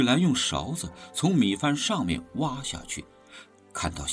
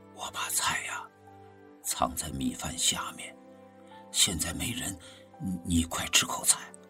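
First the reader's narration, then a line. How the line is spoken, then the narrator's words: Soft, secretive. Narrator (Chinese): 看到周围没人了，就轻声对他说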